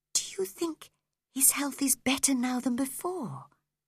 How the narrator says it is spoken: whispered Cathy

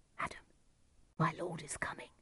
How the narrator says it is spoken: whispered the servant

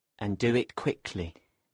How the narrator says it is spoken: Benvolio muttered to himself

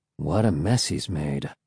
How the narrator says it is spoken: he murmured

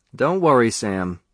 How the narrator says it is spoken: Sean Conklin said

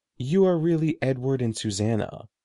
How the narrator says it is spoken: Morgrid replied

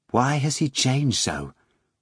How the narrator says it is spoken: Margarita asked quietly of Volant as the wind whistled by

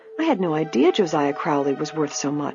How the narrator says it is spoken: she murmured

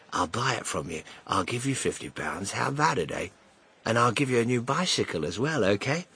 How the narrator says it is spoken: the man whispered

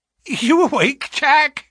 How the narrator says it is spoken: she cried with a nervous laugh

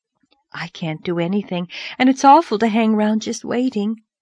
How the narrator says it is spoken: sighed Charlotta

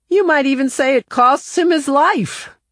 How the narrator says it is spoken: One of the students called out

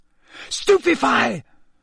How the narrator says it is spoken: Harry yelled

